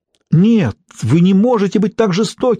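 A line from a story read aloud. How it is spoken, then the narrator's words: Pleading. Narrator (Russian): взмолилась Лесли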